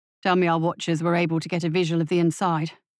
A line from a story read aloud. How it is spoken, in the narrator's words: he said